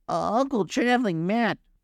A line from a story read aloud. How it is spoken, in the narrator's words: Gobo cried again